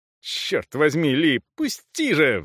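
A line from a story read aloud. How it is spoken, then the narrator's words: Howled. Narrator (Russian): взвыл Эйб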